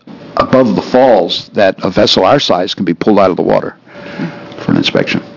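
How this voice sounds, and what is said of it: Hint of Boston accent. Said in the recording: “We thought we detected a hint of a New England accent. ... Massachusetts. ... Boston is my town.”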